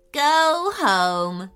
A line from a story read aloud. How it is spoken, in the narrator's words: chuckled Liam excitedly